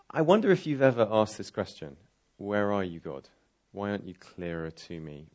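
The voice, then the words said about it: Speaks with a distinct accent. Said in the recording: “I really do sound like this. It's not just a put-on accent.”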